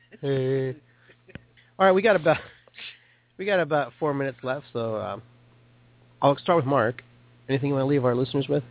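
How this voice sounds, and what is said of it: Radio DJ voice. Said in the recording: “My DJ voice.”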